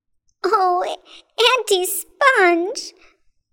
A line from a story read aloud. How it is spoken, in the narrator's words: cried James